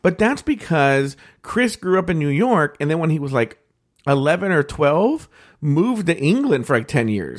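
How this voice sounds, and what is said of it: Posh mid-Atlantic accent. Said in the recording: “the posh accent I have was this made-up accent ... this weird accent that was a cross between England and the United States ... mid-Atlantic accent”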